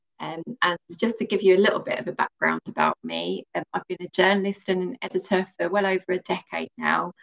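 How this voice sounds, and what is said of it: British London accent. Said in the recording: “as you can probably tell by my accent, I'm not based in the US ... I'm actually based in the UK. I'm from London”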